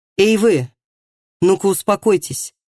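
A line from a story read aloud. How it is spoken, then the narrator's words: Sharp voice. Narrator (Russian): Резким голосом сказал Матиас судебному приставу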